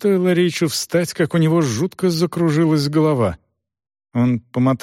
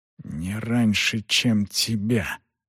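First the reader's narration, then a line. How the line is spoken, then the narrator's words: Muttering. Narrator (Russian): пробормотал Рейч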